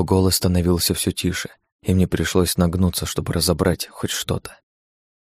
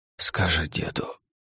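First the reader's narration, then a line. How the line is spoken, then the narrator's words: Breath right in ear. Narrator (Russian): выдохнуло мне прямо в ухо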